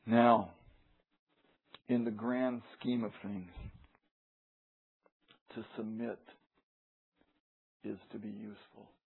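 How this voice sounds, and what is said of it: Voice giving out, strained. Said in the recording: “my voice is going out there”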